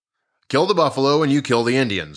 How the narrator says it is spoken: the general said

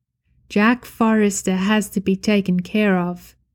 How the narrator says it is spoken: the man says

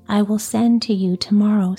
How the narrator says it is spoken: said Juliet

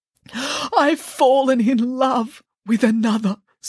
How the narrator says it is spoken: sobbed the princess

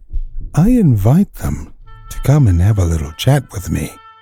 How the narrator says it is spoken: he said in a soft voice

